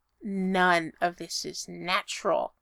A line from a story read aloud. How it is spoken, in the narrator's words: his dad grunts